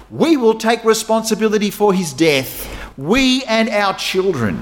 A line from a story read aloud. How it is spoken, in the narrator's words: all the people yelled back